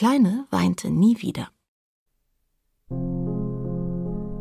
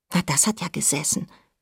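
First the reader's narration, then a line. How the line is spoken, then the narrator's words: Whisper. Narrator (German): flüsterte Nora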